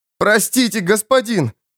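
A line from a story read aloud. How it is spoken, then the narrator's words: Forced out. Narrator (Russian): выдавил Бак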